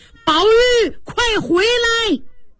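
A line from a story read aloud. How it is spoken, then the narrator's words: Shouting. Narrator (Chinese): 贾宝玉后边喊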